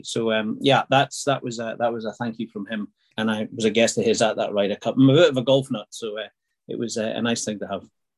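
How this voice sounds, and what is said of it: Scottish Aberdeenshire accent. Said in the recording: “Where's the accent from ... Originally Aberdeenshire”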